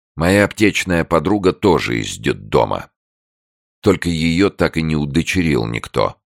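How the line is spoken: Plain. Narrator (Russian): сказал Андрей

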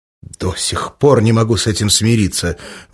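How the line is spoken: Exclaimed. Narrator (Russian): воскликнул ее собеседник

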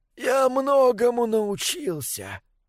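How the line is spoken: Hoarse rasp. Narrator (Russian): прохрипел Мортарион

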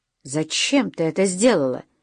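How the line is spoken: Sharp question. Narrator (Russian): резко спросил Уэсли

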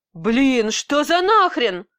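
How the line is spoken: Woman with male voice. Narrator (Russian): произнесла я сама, но почему-то мужским голосом

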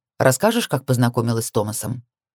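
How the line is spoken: Casual request. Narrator (Russian): Вполне обыденным тоном попросил он

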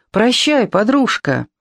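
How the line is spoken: Cheerful shout. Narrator (Russian): весело крикнул мне

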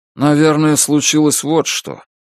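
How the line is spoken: Gloomy. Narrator (Russian): мрачно сказал Джо

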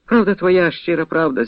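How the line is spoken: Sighing. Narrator (Ukrainian): зітхнув Кирило Розумовський

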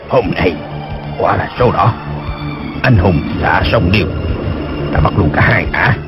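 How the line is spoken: Delighted muttering. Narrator (Vietnamese): Dân Trung Hạc khoái quá lẩm bẩm

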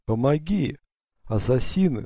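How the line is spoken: Weak voice calling. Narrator (Russian): слабым голосом позвал Юсуф по-гречески

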